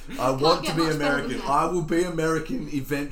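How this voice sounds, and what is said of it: Usual voice. Nothing is said of it.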